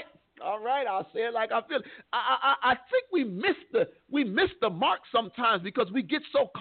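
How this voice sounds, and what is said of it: Usual voice. Nothing is said of it.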